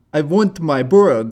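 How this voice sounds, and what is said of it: Put-on Russian accent, movie character. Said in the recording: “Is that pretty good? ... It's getting better and better. ... That's his Russian accent.”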